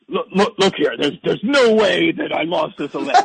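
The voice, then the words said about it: Poor imitation of another person's voice. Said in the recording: “That's the worst Trump impression I've ever heard in my life.”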